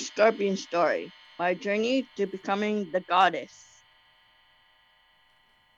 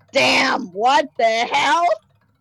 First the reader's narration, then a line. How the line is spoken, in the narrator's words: I yelled